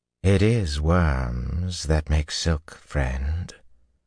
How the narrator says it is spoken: a man drawled behind him

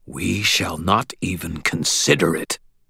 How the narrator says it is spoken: replied, his voice hard

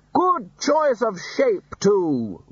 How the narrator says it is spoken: Ridcully continued loudly

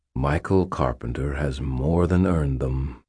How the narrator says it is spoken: Uriel said, his voice warm

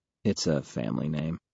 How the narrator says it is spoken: I mutter

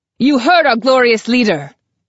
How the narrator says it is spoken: I shout

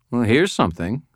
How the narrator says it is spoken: she said in a dry tone

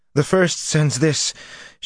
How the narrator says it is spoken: panted

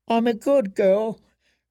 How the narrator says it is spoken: Jane whimpered

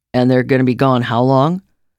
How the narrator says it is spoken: Jeff said

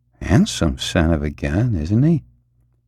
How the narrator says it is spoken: Jim Plank, absorbed in the sight, murmured

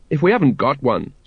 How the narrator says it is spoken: said Sergeant Colon

